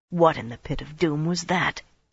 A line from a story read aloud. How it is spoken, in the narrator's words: Talonvor muttered